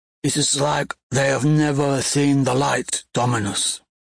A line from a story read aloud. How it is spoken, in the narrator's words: rasps a quiet one